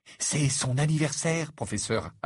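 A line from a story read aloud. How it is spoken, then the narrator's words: Pleading tone. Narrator (French): ajouta-t-il d'un ton implorant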